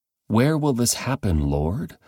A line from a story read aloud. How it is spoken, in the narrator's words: the disciples asked